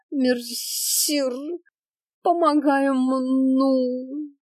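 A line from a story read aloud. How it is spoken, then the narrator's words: Theatrical groan from ground. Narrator (Russian): простонала с земли Аленка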